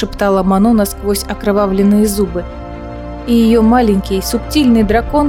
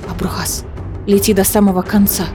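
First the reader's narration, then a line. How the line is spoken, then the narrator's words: Whispering. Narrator (Russian): шептала дракону Манона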